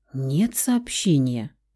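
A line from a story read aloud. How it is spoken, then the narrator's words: Guilty mumble. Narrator (Russian): пробормотала девушка с виноватыми нотками в голосе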